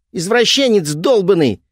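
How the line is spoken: Shouted. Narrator (Russian): крикнула Мари

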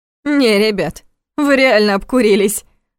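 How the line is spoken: Laughing. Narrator (Russian): рассмеялась Нина

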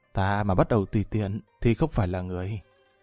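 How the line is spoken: Chuckling, gentle close to ear. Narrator (Vietnamese): Lâm Văn Vinh cười hắc hắc, ghé tai nhẹ nhàng nói tiếp

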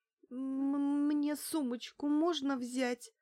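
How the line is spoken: Stammering, plaintive plea. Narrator (Russian): заикаясь, жалобно попросила я

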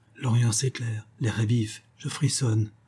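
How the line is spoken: Young man murmuring. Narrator (French): murmura le jeune homme

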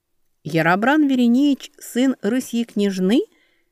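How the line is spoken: Slow repetition. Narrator (Russian): медленно повторила Велька

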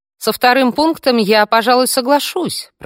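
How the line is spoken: Shout from another room. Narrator (Russian): прокричала из гардеробной

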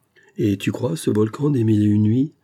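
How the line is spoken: Mocking question. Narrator (French): demanda Semi Skim d'un ton goguenard

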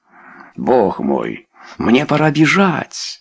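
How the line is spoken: Exclamation. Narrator (Russian): воскликнул он

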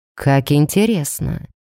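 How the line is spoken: Quiet male voice. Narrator (Russian): негромко проговорил мужчина

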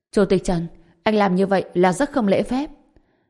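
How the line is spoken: Startled angry scolding. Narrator (Vietnamese): Những người khác sửng sốt một chút, sau đó tức giận mắng

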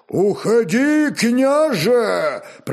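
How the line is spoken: Thunderous roar. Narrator (Russian): прорычал громовым глазом могучий Руяр

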